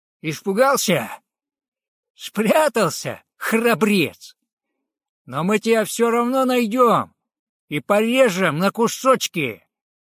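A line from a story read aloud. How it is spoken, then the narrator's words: Loud shout. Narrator (Russian): Косой громко крикнул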